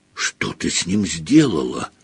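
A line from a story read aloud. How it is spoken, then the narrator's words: Whisper. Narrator (Russian): прошептал Гарри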